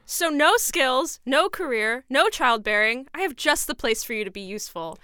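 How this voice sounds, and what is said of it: Shouted, theatrical acted line. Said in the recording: “It's literally just me shouting.”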